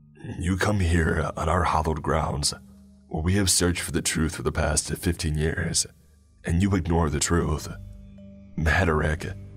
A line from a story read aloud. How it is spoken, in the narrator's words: he said in his ragged voice